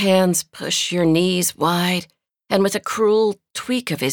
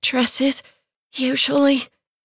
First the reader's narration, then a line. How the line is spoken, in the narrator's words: gasp